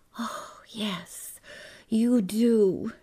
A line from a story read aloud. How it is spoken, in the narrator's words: told, voice a whisper